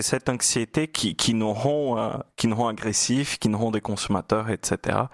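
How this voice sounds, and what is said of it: Swaying Brazilian Portuguese accent in French. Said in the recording (French): “cet accent chaloupé ... c'est votre brésilien natal, votre portugais natal”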